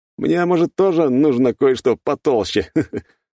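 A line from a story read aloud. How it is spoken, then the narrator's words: Laughing. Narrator (Russian): рассмеялся я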